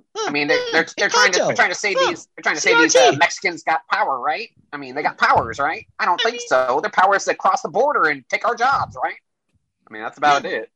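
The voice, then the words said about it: Nasal Tucker Carlson impression. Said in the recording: “give us your Tucker impression ... It's got to be real nasally, right?”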